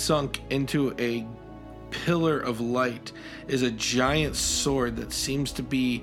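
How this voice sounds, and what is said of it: Usual voice. Nothing is said of it.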